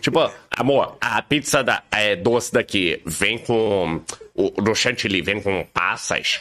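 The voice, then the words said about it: Imitates another person's voice. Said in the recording (Portuguese): “com a voz dele”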